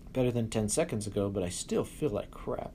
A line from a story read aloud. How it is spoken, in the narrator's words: Giuseppe groaned